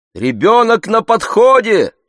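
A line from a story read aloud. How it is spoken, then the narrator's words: Shouting from the street. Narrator (Russian): кричали с улицы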